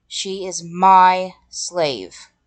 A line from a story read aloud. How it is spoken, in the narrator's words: Seth growled